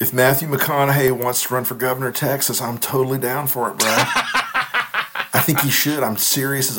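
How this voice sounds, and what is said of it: Usual voice. Nothing is said of it.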